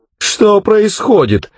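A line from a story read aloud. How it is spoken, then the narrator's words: Wailing. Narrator (Russian): взвыла дымка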